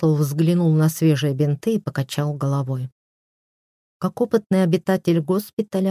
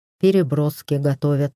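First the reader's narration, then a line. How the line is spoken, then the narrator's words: Slightly gloomy. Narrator (Russian): немного мрачно сказал птиц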